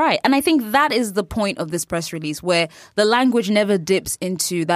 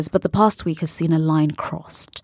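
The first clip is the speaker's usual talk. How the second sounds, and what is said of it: Put-on BBC-style British accent. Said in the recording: “I'm going to do my best BBC accent.”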